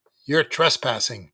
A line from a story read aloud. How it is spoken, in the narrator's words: barked Mick